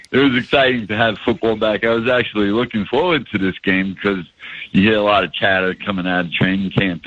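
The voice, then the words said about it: New York accent. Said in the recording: “with the New York accent.”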